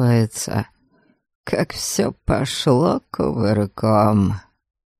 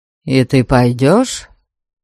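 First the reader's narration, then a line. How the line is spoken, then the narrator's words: Plain. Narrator (Russian): спросил Абальд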